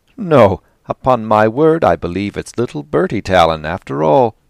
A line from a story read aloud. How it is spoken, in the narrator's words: he exclaimed